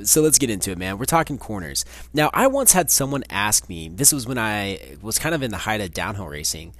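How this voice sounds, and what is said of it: Hoarse, crackly, worn-out voice. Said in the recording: “My voice is just about gone ... my voice tends to get a little shoddy ... if you hear a little crackle, a little in and out”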